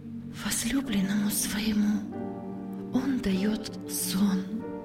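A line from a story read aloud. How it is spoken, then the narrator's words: Solemn quiet whisper. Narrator (Russian): тихо и как-то торжественно прошептала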